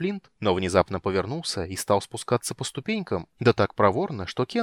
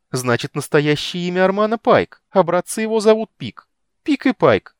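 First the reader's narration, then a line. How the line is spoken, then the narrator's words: Giggling. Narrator (Russian): Кендер хихикнул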